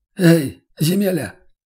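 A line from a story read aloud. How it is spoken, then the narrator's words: Hoarse call. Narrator (Russian): окликнул его один из них сиплым голосом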